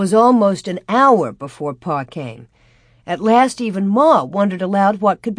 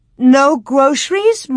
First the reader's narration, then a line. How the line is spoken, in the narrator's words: Ma almost wailed